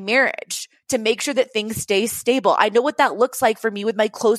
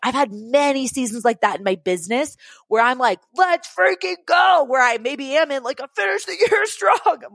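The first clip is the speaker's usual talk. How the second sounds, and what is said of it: Loud, yelling, excited speech. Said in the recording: “sorry, I'm yelling at you right now.”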